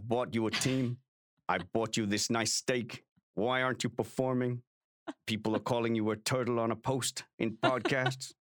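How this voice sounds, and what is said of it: Imitation with a light Russian accent. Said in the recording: “Is Lawrence Stroll lightly Russian now? ... my impression of Lawrence Stroll”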